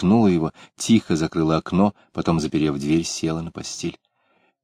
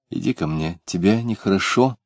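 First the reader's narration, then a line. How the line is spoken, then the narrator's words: Anxious, tender question. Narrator (Russian): тревожно и ласково спросила она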